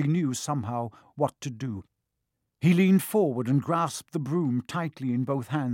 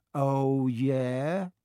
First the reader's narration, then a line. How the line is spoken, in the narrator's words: said Malfoy, trying to sneer but looking worried